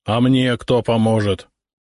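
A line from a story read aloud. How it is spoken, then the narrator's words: Grumbling officer. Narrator (Russian): проворчал сотник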